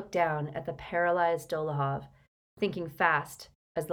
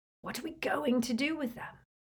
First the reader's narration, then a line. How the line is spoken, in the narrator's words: Ron whispered to Harry, through the dark